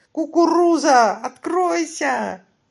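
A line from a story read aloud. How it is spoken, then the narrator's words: Yelling. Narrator (Russian): заорал Касим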